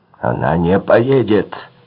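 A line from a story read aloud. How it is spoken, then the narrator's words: Furious shout. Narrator (Russian): яростно крикнул Альскони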